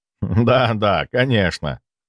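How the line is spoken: Laughing. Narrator (Russian): рассмеялся

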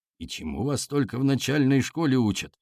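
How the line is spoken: Grumbled. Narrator (Russian): проворчал Алексей Егорович

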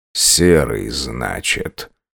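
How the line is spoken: Quiet reply. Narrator (Russian): Негромко отозвался Герман

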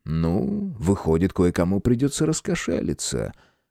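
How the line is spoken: Low purring voice. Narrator (Russian): Анна вполголоса промурлыкала

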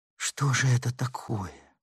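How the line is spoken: Confused whisper. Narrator (Russian): растерянно шептала Ларин

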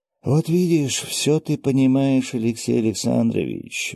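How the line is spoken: Sighing. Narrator (Russian): вздохнул я

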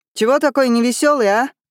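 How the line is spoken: Shout from behind. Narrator (Russian): крикнул кто-то в спину

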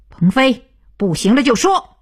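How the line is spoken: Loud. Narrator (Chinese): 徐东福 大声道

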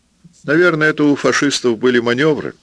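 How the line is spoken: General laughing. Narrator (Russian): засмеялся генерал

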